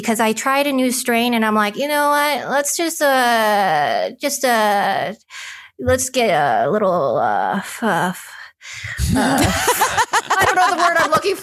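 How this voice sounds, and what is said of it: Dazed, high-sounding speech. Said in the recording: “I thought you were doing an impression of someone who's high ... high, right now”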